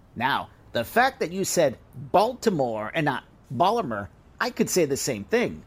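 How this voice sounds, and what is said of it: Queens New York accent. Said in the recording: “your accent certainly isn't Baltimore ... I'm from Queens, and sorry, but I'm stuck with my accent.”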